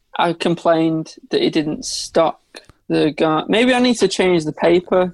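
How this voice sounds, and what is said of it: Northern English accent. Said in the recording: “it's probably this northern accent”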